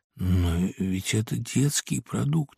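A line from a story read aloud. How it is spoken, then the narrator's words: Barely audible. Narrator (Russian): еле слышно проговорил я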